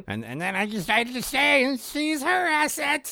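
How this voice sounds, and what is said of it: Ferengi character voice. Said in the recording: “Really good at this and at the voice ... your best impression ... Ferengi”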